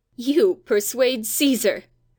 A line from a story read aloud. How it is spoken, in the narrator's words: Robert laughed